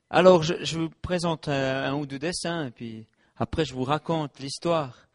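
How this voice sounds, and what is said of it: Strong regional French accent. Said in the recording (French): “il paraît, même dans mon pays, dit que j'ai un sacré accent”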